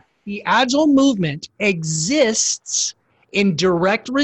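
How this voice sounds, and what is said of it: Usual voice. Nothing is said of it.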